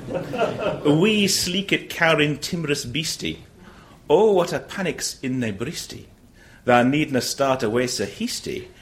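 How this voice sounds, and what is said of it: Attempted Scottish accent. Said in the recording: “I'm about to attempt a Scottish accent”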